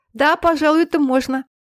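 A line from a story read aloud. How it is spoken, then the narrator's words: Laughing aloud. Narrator (Russian): сказала она вслух, все еще смеясь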